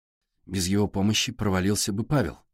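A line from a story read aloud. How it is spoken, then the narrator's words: Tired. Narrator (Russian): устало сказала Сашка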